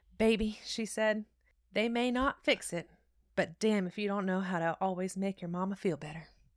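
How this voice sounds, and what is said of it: Country accent. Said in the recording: “she had a country accent.”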